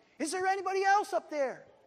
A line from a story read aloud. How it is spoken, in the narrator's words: the man shouted up again